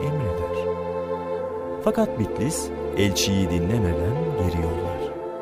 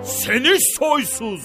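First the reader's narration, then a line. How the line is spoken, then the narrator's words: Shouting. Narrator (Turkish): diye bağırır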